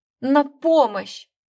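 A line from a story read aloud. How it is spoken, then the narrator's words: Hoarse croak. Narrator (Russian): прохрипела я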